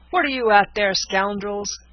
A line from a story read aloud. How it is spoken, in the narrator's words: cried Lieutenant Mason